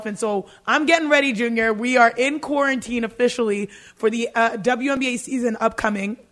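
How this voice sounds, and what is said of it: Hoarse, strained voice. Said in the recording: “my voice is gone, because I'm screaming in the gym all the time”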